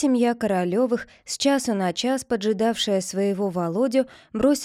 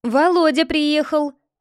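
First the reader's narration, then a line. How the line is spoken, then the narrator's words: Shout from the yard. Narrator (Russian): крикнул кто-то на дворе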